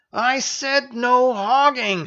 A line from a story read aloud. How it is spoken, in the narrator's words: screamed Versera